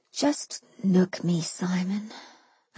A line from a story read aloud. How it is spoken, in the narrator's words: I said quietly